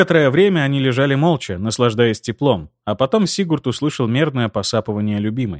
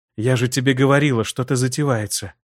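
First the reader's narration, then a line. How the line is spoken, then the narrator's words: Quiet. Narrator (Russian): тихо произнесла Аэлира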